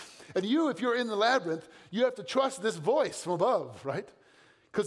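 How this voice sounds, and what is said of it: Usual voice. Nothing is said of it.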